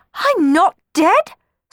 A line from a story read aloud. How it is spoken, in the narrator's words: spluttered Cenerentola, shocked